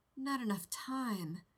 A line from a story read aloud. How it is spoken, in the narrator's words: Rodney whispered, miserably